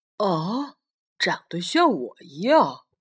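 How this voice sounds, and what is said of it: Soft, quiet spoken line. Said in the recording (Chinese): “霸王龙小声地说”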